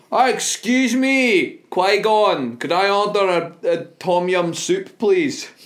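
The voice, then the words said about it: Put-on Scottish accent. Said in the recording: “I'm going to do a Scottish accent.”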